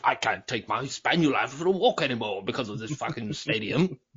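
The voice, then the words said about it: Put-on posh upper-class English accent. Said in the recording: “I just imagine you'll be a walking stick in a tweed jacket, ... hunting some pheasant there with ... that accent.”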